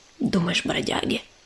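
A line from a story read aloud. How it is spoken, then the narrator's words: Hissed. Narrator (Russian): прошипел Долголап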